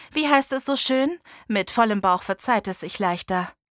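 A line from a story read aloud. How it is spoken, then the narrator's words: Plain. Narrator (German): sagte ich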